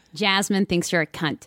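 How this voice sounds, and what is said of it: Put-on American accent. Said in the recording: “This is so jarring with an American accent.”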